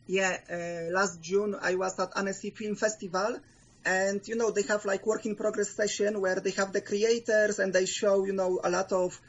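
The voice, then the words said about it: Polish accent. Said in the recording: “a distinct certain accent ... our longtime fan and Polish correspondent”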